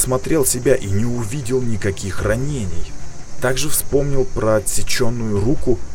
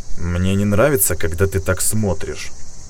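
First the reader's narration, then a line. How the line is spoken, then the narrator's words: Man snorting. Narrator (Russian): хмыкнул мужчина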